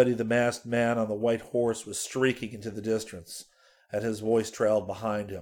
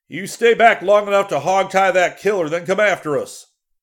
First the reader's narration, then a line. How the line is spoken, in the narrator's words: He yelled to Walrus